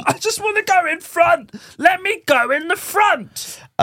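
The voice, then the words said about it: Imitates another person's voice. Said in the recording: “Do you want to hear my impression of George Russell?”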